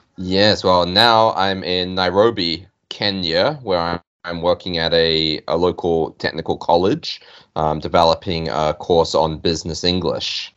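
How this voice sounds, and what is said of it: New Zealand accent. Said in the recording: “you can probably tell from the accent, but he is from New Zealand, I think, originally”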